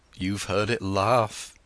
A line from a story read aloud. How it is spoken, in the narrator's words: he said